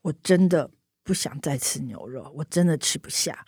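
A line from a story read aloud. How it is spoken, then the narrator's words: Sighing. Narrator (Chinese): 叹了一口气，说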